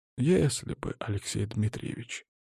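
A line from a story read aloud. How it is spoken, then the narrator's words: Tired reply. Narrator (Russian): усталым голосом ответил студент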